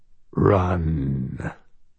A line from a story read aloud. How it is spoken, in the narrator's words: said a voice that was almost a growl